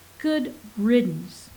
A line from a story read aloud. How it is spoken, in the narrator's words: Alex said